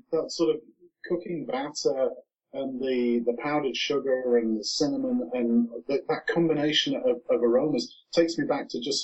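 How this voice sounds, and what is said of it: Noticeable foreign accent. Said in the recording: “I'm sorry. I know I have an accent.”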